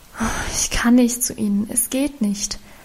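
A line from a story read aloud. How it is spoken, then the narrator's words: Sighing reply. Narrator (German): erwiderte sie seufzend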